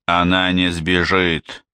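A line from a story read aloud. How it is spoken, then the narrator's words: Plain. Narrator (Russian): сказал Даннер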